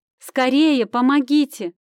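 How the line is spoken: Screaming at full strength. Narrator (Russian): закричала я, что было сил

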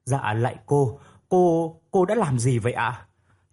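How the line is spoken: Stammering question. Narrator (Vietnamese): Hồng lắp bắp lên tiếng hỏi

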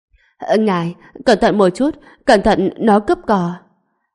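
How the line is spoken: Trembling, fearful. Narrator (Vietnamese): Cái mặt béo kia trở nên run rẩy, nói

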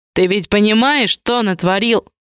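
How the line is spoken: Barking. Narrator (Russian): рявкнул Барканский-старший

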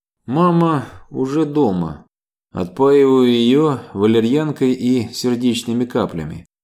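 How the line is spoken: Tired. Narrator (Russian): устало закончила Ева

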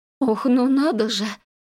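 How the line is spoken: Faint breath, suppressed disgust. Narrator (Russian): Едва выдохнула Ма, пытаясь побороть непроизвольную гримасу брезгливости

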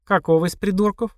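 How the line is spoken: Snide, mocking question. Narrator (Russian): ехидно спросила Марина

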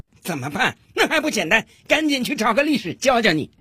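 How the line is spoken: Loud scolding judge. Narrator (Chinese): 法官提高了嗓门，大声的训斥道

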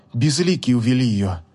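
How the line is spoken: Calm reply. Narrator (Russian): спокойно ответила Кея

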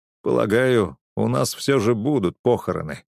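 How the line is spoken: Dry. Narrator (Russian): сухо сказал я

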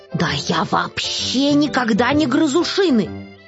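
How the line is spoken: Offended reply. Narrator (Russian): обиженно ответил Финдус

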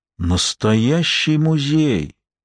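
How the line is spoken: Caliph's astonished whisper. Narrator (Russian): не веря своим глазам, прошептал халифа

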